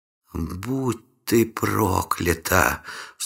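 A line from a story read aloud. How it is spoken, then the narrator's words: Gloating whisper. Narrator (Russian): с наслаждением прошептала наемница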